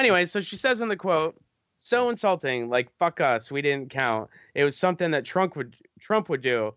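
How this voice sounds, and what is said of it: Usual voice. Nothing is said of it.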